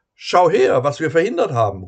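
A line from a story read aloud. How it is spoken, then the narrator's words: Proud call. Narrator (German): ruft er stolz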